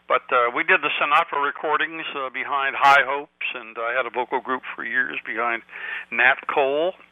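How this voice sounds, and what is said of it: Hoarse voice from a cold. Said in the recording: “my hoarseness, a little cold”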